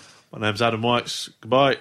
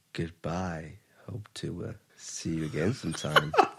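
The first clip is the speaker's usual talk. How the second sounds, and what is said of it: Sultry, seductive voice. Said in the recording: “Do your goodbye in your sexy voice.”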